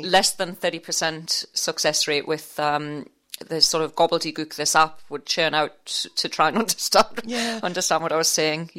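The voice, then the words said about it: Geordie northeast English accent. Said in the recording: “I'm a Geordie from Newcastle upon Tyne... the northeast accent”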